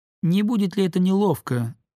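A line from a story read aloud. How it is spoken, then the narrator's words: Thin high voice. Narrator (Russian): сказал Оперов своим тоненьким голоском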